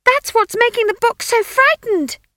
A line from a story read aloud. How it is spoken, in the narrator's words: she shrieked in his ear